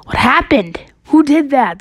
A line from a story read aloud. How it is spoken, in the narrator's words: the ghost boy screamed